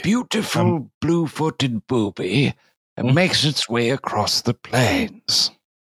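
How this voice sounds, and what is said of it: Imitates a nature documentary narrator. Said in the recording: “The only celebrity I need is Attenborough ... that was impression. Great.”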